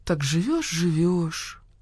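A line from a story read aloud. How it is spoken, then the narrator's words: Pensive. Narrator (Russian): задумчиво произнесла Нина Павловна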